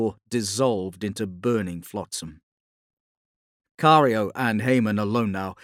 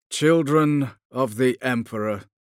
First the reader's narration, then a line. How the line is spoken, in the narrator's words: said dryly